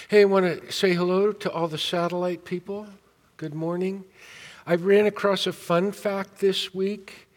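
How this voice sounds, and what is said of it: Slightly scratchy voice. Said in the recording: “My voice is a little scratchy after singing.”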